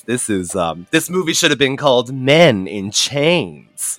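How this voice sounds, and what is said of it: Imitates a TV character's voice. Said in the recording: “in my best Blanche Devereaux voice”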